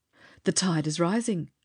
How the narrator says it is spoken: Charlie exclaimed

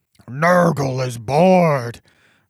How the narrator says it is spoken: roared Manthrax the Minotaur

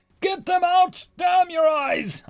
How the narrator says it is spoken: I shouted at her

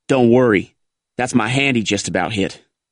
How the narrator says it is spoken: snapped

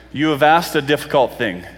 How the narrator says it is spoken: Elijah replied

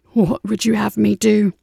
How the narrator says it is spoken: Brahms croaked

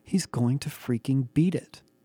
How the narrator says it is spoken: I whispered in awe

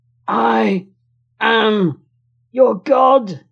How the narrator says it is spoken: he gasps

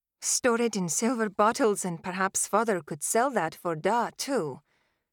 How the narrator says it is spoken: Tavi muttered under her breath

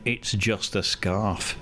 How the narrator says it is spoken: she says

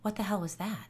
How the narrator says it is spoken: Asia breathed

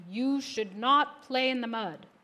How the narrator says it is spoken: said his father very sternly

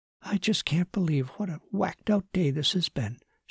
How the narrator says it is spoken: she whispered to herself

